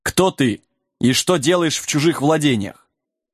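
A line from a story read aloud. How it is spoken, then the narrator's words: Stern question from rider. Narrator (Russian): Один из всадников строго спросил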